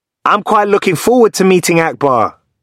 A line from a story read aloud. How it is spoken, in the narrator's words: shouts